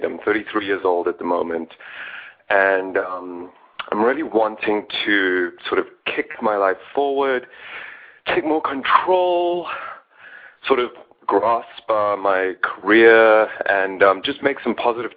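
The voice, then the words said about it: South African accent. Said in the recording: “You have a beautiful accent ... South Africa ... it's a very beautiful accent”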